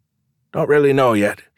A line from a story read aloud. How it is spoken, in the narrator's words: he said